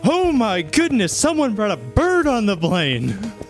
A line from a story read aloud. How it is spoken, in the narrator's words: kind of just shout